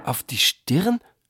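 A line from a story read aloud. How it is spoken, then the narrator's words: Fearful question. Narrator (German): fragte Neb Omek ängstlich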